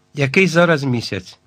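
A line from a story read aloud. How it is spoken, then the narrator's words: Hoarse question. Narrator (Ukrainian): хрипко запитав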